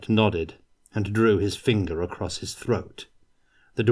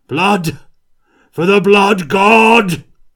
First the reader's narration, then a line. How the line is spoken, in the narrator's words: shouted